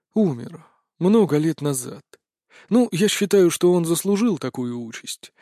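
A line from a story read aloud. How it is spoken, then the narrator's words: Sighing reply. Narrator (Russian): вздохнув, ответил Анубис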